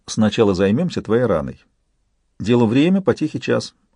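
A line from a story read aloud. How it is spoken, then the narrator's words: Gentle declaration. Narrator (Russian): мягко, заявила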